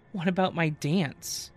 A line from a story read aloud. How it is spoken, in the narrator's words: Abby whined